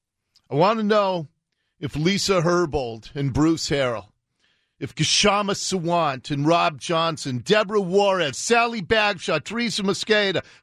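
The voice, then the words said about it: Shaking voice, barely controlled anger. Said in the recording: “I'm trying to control my rage today. You can probably hear the shaking in my voice, because I certainly do.”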